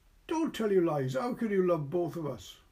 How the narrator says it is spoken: Edith cried

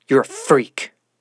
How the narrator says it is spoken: she spat

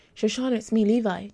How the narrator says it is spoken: Detective Levi shouted

